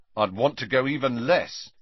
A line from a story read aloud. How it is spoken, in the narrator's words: said Ron firmly